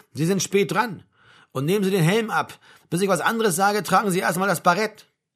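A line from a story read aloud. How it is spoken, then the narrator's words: Sergeant calling out. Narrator (German): rief der Hauptfeldwebel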